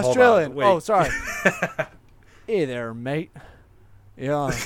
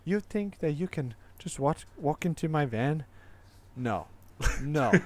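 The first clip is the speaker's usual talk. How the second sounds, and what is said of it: Put-on leprechaun accent, unconvincingly Australian. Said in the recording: “give me your best Australian leprechaun accent. ... That was nowhere near Australian.”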